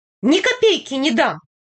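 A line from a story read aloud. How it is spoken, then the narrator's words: Squealing. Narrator (Russian): визгнул дядя Гуров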